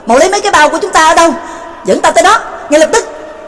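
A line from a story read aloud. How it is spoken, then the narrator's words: Urgent loud shout. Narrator (Vietnamese): Trương Lập sực nhớ ra, lớn tiếng quát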